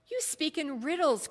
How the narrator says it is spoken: cried Balthazar

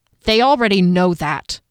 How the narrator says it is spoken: snapped

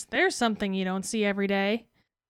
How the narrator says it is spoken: Everyone laughs as one of the twins says

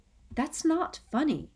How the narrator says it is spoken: said Hermione quietly

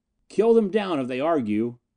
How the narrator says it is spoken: Snap shouted after him

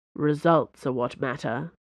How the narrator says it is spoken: Athos growled

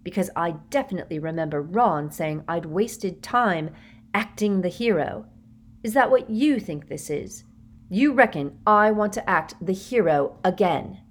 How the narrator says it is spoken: said Harry through gritted teeth

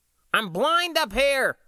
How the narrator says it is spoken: John cried

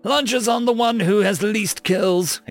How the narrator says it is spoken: exclaimed Nathan

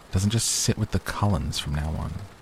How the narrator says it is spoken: I heard her muttering to Mike

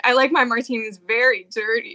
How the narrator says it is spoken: she giggled

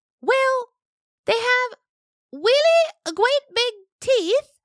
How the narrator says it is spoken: Arcturix said nervously

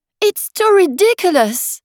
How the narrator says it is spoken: cried Alice, losing all her patience this time

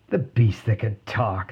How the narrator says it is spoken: they scoffed

